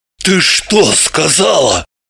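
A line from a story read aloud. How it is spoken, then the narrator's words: Muffled, drunken question. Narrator (Russian): Проливая водку мимо стакана, он глухо спросил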